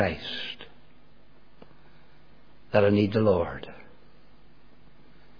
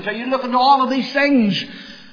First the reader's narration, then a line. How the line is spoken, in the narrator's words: Peter cried out